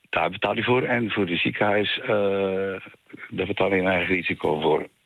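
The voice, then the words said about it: Flemish Belgian accent in Dutch. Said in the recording (Dutch): “ik hoor een licht Belgisch accent ... Het is heel Vlaams accent”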